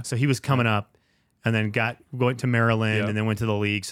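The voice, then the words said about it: Slight foreign accent. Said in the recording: “I hear the accent a little bit there too”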